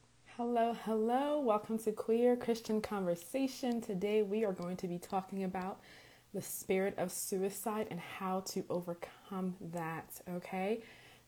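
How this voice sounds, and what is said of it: Raspy voice, sore throat. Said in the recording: “my voice is a little bit raspy today. I have a sore throat um, from smoking hookah this last weekend. Um, so that's why I sound like that.”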